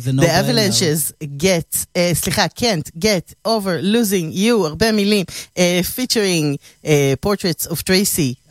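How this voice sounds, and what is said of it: Dubious accent in English words. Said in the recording (Hebrew): “מבטא, מפוקפק”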